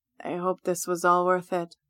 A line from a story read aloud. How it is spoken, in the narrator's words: Lars mumbles into my ear